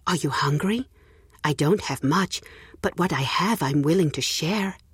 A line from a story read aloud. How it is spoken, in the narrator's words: Auntie Lily asked kindly